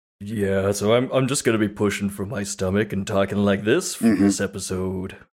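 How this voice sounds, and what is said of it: Forced deep voice. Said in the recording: “You gotta get the nice, deep voice.”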